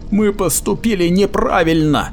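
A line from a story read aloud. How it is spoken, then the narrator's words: Pleading. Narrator (Russian): взмолился Эперлиант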